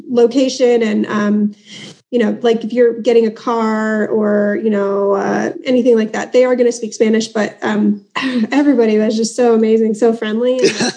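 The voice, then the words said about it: American accent. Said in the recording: “my American accent.”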